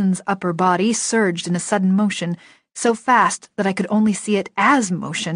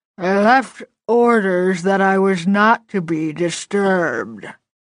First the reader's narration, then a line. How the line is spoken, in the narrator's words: he repeated it 3 more times